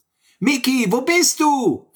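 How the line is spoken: Calling out. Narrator (German): rief Sammy

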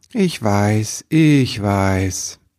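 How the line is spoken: Sighing. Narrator (German): Jemand seufzte und sagte

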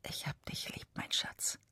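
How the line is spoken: Whispered. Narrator (German): Er flüstert

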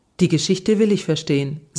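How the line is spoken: Plain. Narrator (German): sagte

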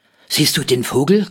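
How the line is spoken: Panting, older boy. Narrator (German): keuchte Rolf, der ältere der beiden

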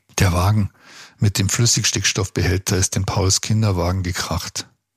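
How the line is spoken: Tear-choked voice. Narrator (German): antwortete Ludwig mit tränenerstickter Stimme

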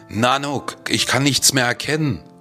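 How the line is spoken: Panicked call. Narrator (German): rief ich panisch

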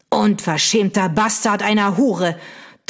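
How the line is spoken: Thundering outburst. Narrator (German): donnerte der Earl

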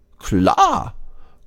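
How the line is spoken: Cheerful group agreement. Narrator (German): die anderen stimmen fröhlich zu

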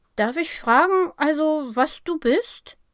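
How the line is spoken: Stammered. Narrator (German): stammelt er

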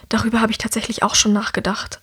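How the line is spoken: Whispered answer. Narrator (German): antwortet Herrick ebenfalls im Flüsterton

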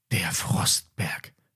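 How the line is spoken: Whisper. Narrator (German): flüsterte Emma

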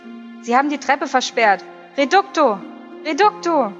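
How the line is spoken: Called out. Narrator (German): eine Stimme rief

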